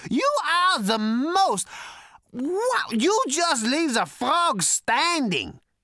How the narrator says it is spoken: He howled and screamed with laughter

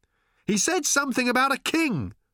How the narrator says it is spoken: shouted Arthur in return, holding on desperately

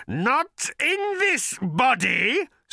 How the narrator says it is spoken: screeched the creature

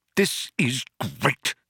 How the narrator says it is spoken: spluttered Arthur

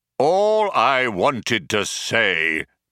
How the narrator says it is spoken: bellowed the computer

